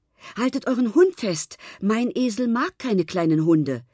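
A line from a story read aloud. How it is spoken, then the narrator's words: Calling young man. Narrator (German): rief da schon der junge Mann, der Sahib am Zaumzeug hielt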